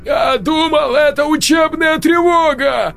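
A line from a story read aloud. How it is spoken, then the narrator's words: Nearly shouting. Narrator (Russian): Сергей почти кричал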